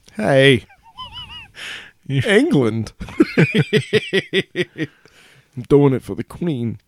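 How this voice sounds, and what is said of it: Put-on British accent. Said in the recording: “British Christopher Walken ... just a British accent, a British accent”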